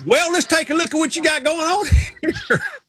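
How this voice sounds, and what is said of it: Put-on Southern accent. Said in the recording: “he understands about the Southern accent ... the smartest people I know have a Southern accent”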